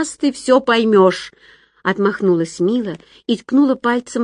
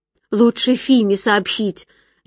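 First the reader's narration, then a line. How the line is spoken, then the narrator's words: Trembling advice. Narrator (Russian): дрожащим голоском посоветовала Мила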